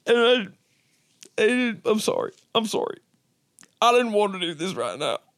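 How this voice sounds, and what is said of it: Crying, own accent slipping through. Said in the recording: “accent showing now too ... just the crying or just the slipping of the accent”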